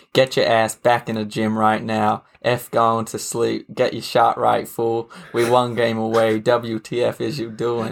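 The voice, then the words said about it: Impersonation with an American accent. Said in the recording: “a good impersonation, actually ... the American accent”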